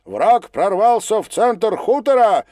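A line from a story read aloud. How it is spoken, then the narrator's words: Captain shouting. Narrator (Russian): кричал капитан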